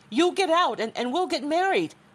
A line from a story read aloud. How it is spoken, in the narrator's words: She shouted again